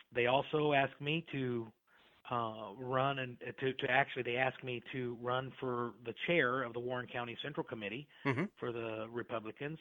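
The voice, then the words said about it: Non-Iowan, southern Indiana accent. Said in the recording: “your accent because that doesn't sound Iowan”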